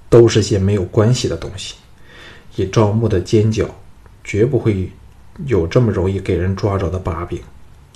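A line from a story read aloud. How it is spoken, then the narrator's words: Sighing. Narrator (Chinese): 陶芳叹道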